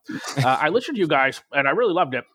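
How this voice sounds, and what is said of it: Imitates another person's voice. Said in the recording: “This is my impersonation of Tom.”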